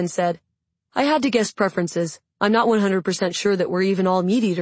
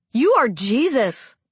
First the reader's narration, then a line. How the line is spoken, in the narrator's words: I exclaimed